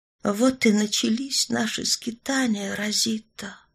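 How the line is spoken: Quiet. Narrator (Russian): тихо сказала она

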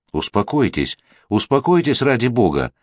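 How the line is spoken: Urgent, straining soothing exclamation. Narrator (Russian): воскликнул подбежавший к постели Дельмас, с трудом сдерживая его

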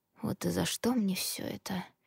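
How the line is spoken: Complaining, sensual husky voice. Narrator (Russian): посетовал он, и в голосе прорезалась чувственная хрипотца

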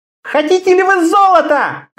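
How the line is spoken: Shout. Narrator (Russian): кричала Карелла

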